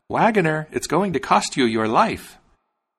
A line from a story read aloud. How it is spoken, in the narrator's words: The sparrow called out